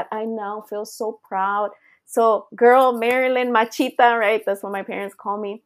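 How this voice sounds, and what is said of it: Speaker's own accent. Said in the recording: “I used to call my accent my demon”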